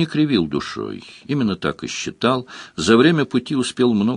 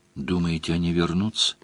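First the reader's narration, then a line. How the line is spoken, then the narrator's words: Quiet question. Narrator (Russian): тихо спросила Делия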